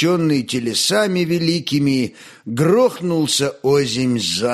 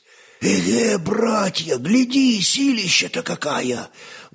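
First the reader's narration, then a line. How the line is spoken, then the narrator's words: Excited whispering among craftsmen. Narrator (Russian): Восторженным шепотом переговаривались шорники и кожевенники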